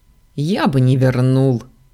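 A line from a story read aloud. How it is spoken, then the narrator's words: Snorting. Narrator (Russian): фыркнул Заран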